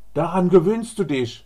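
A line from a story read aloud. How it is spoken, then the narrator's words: Middle-aged foreman calling. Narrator (German): ruft der Schichtleiter, vielleicht 55 Jahre alt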